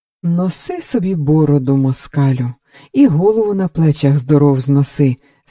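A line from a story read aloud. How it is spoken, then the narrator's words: Sympathetic sigh. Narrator (Ukrainian): сказав і зітхнув співчутливо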